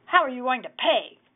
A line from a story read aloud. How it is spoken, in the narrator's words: growled the hag